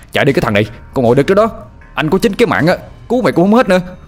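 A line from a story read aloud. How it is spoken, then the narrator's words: Choked, shouting. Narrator (Vietnamese): Anh vừa nặng cổ lại, vừa hét lên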